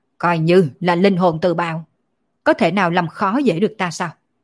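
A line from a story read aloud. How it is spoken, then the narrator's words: Loud shout, coughing blood. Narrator (Vietnamese): Thánh quân quát to một tiếng, phun ra một ngụm máu tươi, quát lên nói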